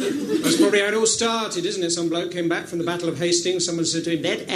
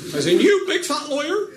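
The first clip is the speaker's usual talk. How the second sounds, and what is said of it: Put-on West Country accent. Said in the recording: “liar with a West Country accent.”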